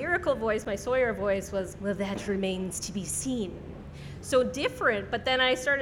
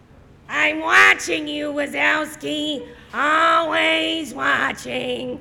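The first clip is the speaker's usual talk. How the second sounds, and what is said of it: Imitates Roz from Monsters, Inc. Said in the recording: “did you base your character off of Roz from Monsters, Inc.? ... do a Roz impression”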